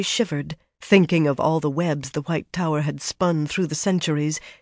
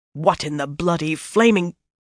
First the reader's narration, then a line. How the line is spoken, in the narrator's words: Snarling, Birgitta